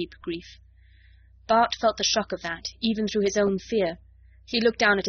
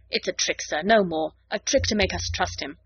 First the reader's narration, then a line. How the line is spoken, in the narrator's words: The medic said roughly in Lhari